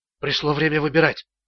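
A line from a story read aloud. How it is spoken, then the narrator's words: Whisper. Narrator (Russian): прошептал Ричард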